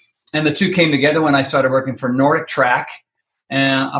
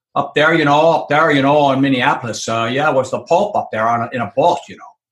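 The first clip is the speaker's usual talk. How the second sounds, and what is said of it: Put-on Minneapolis accent. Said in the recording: “there's my Minneapolis accent.”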